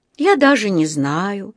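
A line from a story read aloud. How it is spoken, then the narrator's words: Dreamy voice. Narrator (Russian): мечтательным голосом проговорил мистер Крубер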